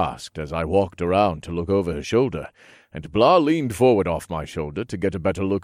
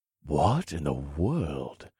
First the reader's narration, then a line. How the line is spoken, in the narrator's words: I whispered